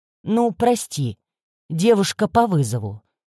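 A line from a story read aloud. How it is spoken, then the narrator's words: Ironic snort. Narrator (Russian): иронично хмыкнул индивид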